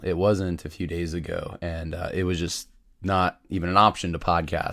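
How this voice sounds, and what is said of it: Slightly sick, rough voice. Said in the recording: “my voice is still a little bit under the weather, but it's at least understandable”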